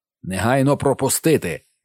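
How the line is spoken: Thunderous bark. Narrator (Ukrainian): гаркнув мандрівець громовим голосом

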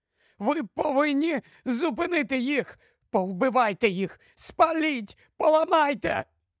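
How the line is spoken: Trembling voice breaking into sobs. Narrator (Ukrainian): Її голос затремтів і зірвався на хрипкі ридання горя і втрати

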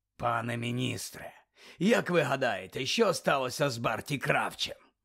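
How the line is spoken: Growled. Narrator (Ukrainian): прогарчав Муді

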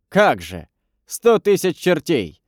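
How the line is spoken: Laughing. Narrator (Russian): засмеялся погонщик

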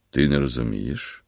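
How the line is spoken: Heavy sigh. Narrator (Ukrainian): Коримський тяжко зітхнув

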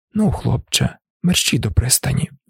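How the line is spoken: Quiet old man. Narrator (Ukrainian): тихо мовив дідусь

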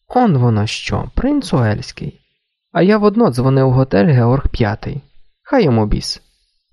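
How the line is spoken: Laughing aloud. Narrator (Ukrainian): Підголосно засміявся

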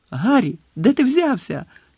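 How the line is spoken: Shouted. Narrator (Ukrainian): крикнула Джинні

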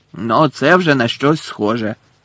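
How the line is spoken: Growled. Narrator (Ukrainian): прогарчав голос Муді

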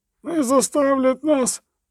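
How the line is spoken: Groaning ferryman. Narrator (Ukrainian): стогнав перевізник

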